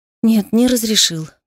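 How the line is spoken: Sighing. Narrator (Russian): вздохнула

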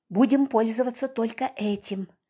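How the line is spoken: Whispered. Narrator (Russian): также шепотом сказала я

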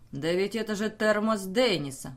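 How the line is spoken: Exclaimed. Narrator (Russian): воскликнул Флеминг

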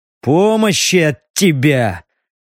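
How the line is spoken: Disappointed growl. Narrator (Russian): разочарованно рыкнул Стриж

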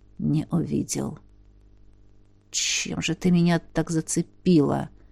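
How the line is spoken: Very quiet, to oneself. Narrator (Russian): Проговорил я совсем тихо и скорее для себя

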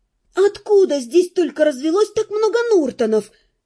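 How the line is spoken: Desperate exclamation. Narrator (Russian): в отчаянии воскликнула я

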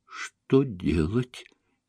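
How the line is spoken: Barely audible question. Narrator (Russian): еле слышно спросила Звягинцева

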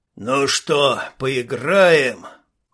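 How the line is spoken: Loud bark. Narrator (Russian): Громко рявкнул Вепрь

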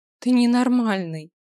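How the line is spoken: Laughing. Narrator (Russian): рассмеялась Ева

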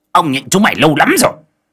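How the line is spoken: Roaring. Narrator (Vietnamese): Khôi gầm lên

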